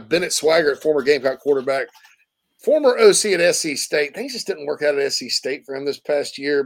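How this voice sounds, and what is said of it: Speaks with a regional accent. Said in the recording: “That's just my stupid accent.”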